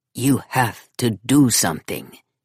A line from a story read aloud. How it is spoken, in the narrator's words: he said at last, his voice gritty